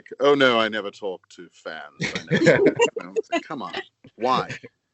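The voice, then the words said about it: Posh British accent. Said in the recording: “Why did you use a British accent for that? ... I just decided to go posh.”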